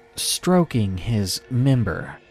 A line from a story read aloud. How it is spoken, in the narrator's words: he said slowly